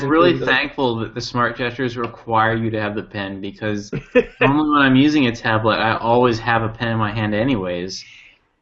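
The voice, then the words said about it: Sarcastic tone. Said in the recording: “being sarcastic?”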